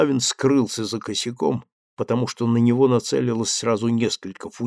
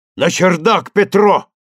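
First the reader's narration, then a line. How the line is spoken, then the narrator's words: Shout. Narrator (Russian): закричал Булавин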